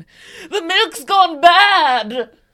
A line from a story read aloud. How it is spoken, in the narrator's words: waking up in the middle of the night to scream